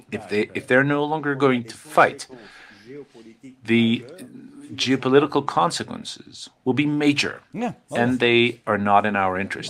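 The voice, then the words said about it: French-accented English. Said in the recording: “in his wonderful, avec son accent formidable français”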